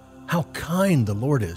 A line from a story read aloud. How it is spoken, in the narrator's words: she exclaimed